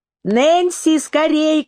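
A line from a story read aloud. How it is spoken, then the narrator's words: Shout. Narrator (Russian): крикнула она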